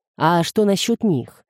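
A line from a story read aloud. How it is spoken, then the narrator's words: Plain. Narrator (Russian): спросил он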